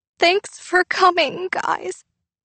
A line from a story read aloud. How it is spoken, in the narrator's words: Lauren said tearfully